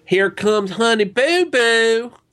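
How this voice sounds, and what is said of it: Put-on redneck accent. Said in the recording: “in my appropriate redneck voice”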